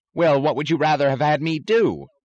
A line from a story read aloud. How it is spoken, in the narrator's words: screamed Taggart